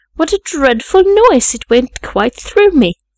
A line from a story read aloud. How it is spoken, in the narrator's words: exclaimed Albert